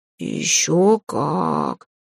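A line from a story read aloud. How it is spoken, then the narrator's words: Thoughtful drawl. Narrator (Russian): задумчиво протянул кот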